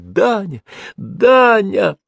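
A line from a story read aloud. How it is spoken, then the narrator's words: Soft happy laughter. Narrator (Russian): От счастья она смеялась тихим смехом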